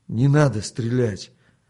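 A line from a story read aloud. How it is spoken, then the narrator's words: Trembling pleading voice. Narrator (Russian): дрогнувшим голосом попросил он еще раз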